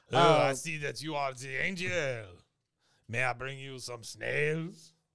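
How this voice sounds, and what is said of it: Exaggerated bad French accent. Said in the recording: “That is such a terrible French accent.”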